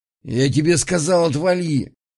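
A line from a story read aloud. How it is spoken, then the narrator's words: Barking snap. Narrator (Russian): Огнев рявкнул, но от подушки не оторвался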